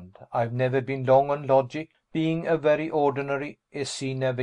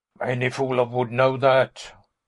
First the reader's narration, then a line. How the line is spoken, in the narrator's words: one of the Haslops grunted